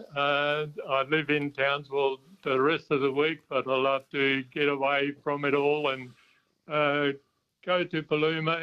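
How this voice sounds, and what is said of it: Faint German-tinged accent. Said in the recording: “you've got an accent which says to me, South Africa. ... Not quite. German from a long way back.”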